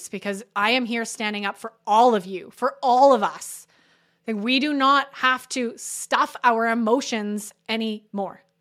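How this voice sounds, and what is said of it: Passionate, emotionally charged voice. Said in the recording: “I'm getting very passionate right now. You can hear that in my voice, because this experience is so raw and real in my body right now.”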